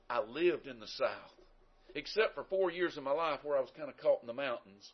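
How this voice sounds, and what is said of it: Southern American accent. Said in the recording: “Do you know how or why I have a southern accent? ... The reason I have a southern accent is I was born in the South.”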